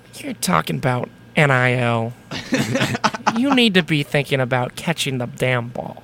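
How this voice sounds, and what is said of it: Imitates another person's voice. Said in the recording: “That's actually a really good Bill impression.”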